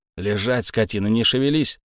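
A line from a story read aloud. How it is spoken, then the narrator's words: Threatening warning. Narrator (Russian): грозно предупредил Герман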